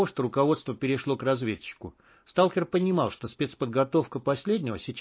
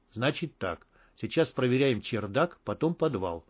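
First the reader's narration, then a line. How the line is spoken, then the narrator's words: Whispered order. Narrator (Russian): шепотом распорядился он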